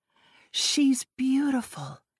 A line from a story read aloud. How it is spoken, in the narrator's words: Hazel whispered